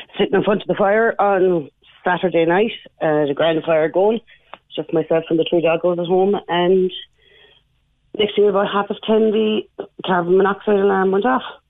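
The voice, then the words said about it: Hoarse voice. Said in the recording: “you sound hoarse ... I'm a little bit hoarse”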